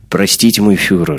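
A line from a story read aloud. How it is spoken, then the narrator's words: Plain. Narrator (Russian): сказал он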